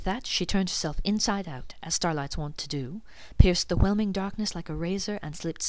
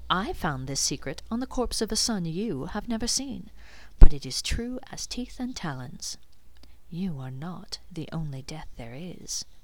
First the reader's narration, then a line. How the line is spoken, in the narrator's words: she purred